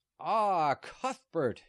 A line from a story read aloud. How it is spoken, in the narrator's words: shouted a man of almost gigantic stature